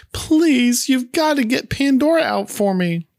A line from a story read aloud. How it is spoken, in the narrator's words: Jill then begins to cry, pleading with Bobby, saying